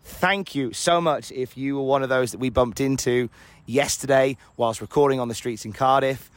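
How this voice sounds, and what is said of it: Hoarse voice. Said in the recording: “Sorry if I sound a bit hoarse... You've left me very hoarse this morning”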